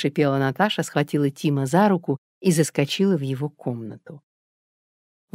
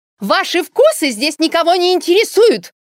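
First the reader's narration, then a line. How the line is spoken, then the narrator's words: Shrill shout. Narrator (Russian): визгливо выкрикнула Алла Дмитриевна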